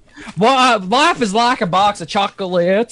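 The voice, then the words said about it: Southern-accented movie character impression. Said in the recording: “now do your southern one... can you talk southern?... so you want me to do like Forrest Gump?”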